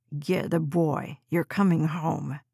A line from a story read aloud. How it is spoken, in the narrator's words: he hissed